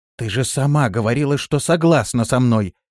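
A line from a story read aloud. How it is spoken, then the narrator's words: Woman exclaiming. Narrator (Russian): воскликнула Лирея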